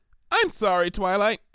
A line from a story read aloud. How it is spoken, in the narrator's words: she said cheerfully